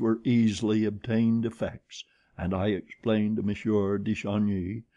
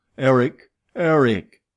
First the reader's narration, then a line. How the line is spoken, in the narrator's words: shouted as loudly as I could